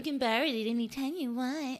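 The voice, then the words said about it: Mocking, exaggerated imitated voice. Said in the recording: “In that stupid ass voice.”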